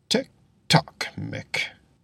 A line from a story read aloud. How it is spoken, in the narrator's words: he muttered